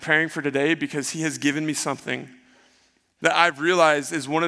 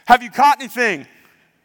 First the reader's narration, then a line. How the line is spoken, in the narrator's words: someone from shore comes and yells at him and asks